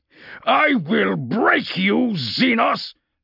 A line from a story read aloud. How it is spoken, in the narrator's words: Castor snarled